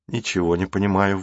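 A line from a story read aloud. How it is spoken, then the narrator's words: Sighed. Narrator (Russian): вздохнул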